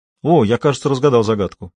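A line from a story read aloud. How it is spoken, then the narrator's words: Exclamation. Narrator (Russian): воскликнул я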